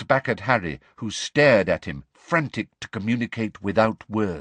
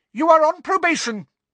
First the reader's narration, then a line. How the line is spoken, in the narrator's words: shrieked Professor Umbridge